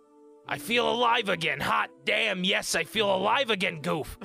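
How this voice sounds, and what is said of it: Put-on Brooklyn accent. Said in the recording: “still in a Brooklyn accent.”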